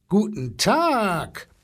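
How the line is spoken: Booming rumble. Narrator (German): polterte der Elefant

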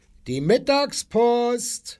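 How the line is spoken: Called out. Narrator (German): rief er

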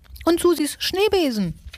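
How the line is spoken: Shouting. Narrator (German): schrie Nagezahn

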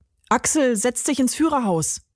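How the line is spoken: Called out. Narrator (German): rief Carlos

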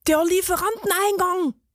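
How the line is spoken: Excited call from behind. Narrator (German): rief die Käsereibe aufgeregt hinter ihnen

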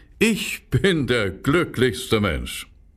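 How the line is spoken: Swineherd laughing and singing. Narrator (German): sagte der Schweinehirt, lachte und sang

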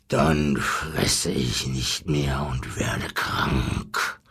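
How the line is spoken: Lion growling. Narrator (German): knurrte der Löwe

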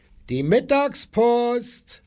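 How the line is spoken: Called out. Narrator (German): rief er

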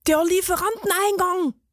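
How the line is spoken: Excited call from behind. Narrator (German): rief die Käsereibe aufgeregt hinter ihnen

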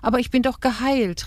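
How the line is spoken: Called out. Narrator (German): rief Rahel

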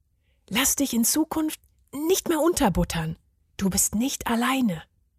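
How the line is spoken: Whispered. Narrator (German): flüsterte er ihm zu

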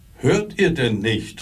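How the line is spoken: Innkeeper shouting loudly. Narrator (German): rief der Wirt so laut er konnte

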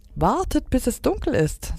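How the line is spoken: Excited. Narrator (German): sagte Stella Luna aufgeregt

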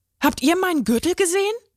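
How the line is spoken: Excited question. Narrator (German): fragte aufgeregt

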